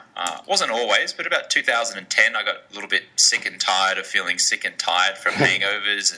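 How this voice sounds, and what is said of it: Australian-American accent. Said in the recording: “you can tell I've got a funny accent. I'm Australian-American.”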